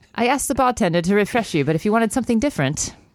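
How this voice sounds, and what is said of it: Poor put-on British accent. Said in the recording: “my accent is horrible ... Did you even know I was trying to do a British accent? ... I did think it was Irish at first.”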